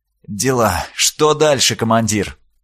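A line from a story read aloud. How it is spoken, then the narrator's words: Sighing. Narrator (Russian): Дорникус вздохнул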